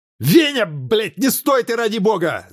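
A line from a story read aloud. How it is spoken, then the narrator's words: Gorilla yelling. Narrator (Russian): завопил горилла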